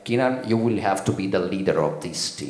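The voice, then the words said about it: Imitated accent of Andrea Trinchieri. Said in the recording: “the accent was perfect”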